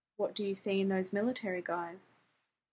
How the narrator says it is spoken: Jim returned quietly

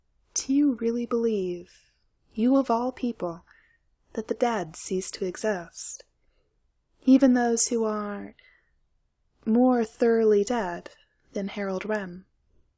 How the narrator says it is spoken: very quietly, Illion said

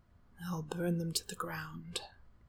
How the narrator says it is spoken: he murmurs seriously

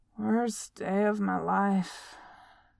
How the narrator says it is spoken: Beaufort slurred

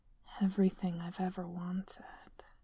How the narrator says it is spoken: he murmured, His voice was mesmerizing, smooth and soft and silky

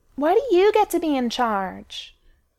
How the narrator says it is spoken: Austin whines to Lauren, clearly for the form of it

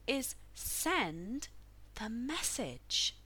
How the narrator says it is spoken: she said more slowly, hoping to give her pronouncement more weight

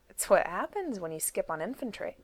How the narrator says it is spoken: Ivan said cheerfully

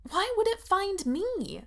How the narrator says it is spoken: she asks desperately

